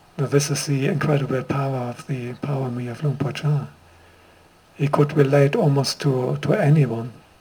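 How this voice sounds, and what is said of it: German accent speaking English. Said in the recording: “a German-born monk, as my accent makes clear”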